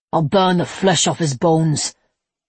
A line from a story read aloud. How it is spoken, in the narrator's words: Levi snarled